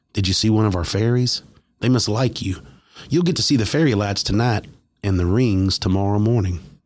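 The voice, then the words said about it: Sweet Kentucky accent. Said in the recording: “in the sweetest Kentucky accent”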